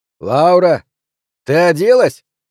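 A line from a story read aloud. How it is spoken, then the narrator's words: Shouting. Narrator (Russian): крикнул Дэйв Деннис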